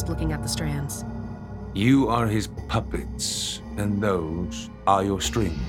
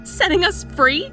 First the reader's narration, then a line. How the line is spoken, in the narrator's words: I cried